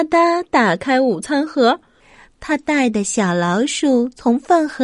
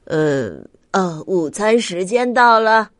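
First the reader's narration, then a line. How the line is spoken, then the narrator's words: Sighing announcement. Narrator (Chinese): 咪咪笑老师叹了口气，宣布说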